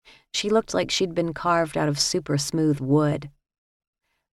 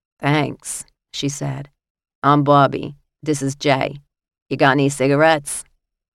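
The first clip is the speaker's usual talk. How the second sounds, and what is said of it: Heavy New York accent. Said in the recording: “Her heavy New York accent suggested many late nights and many cigarettes.”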